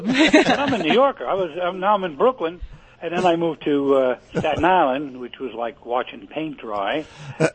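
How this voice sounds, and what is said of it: New York accent. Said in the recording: “Your accent doesn't sound Floridian to me. ... that's what it sounds like”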